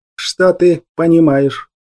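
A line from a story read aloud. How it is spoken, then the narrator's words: Hollow, muffled question. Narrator (Russian): глухо спросил Ур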